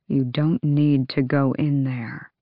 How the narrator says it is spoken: He said quietly

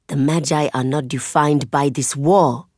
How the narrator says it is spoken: Zeli hisses

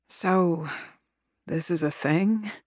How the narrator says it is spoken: Cecilia drawls, voice hoarse, fatigued

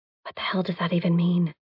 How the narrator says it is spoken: I whisper to Tucker

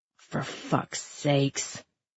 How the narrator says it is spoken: Lydia mumbled

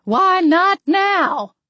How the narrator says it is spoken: Jetty called out

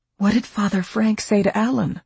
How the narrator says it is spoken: Marge asked anxiously

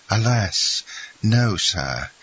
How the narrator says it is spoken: replied Andrea with a sigh, still more remarkable than the former ones

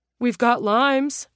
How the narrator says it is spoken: Ro called out

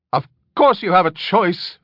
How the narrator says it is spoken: Flick snapped angrily

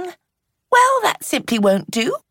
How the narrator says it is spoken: Eve said cheerfully

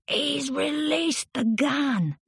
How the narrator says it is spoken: shouted Michele from below

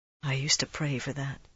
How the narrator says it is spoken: he said softly

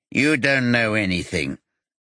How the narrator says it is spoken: Pieter Darlin says in a nasal voice

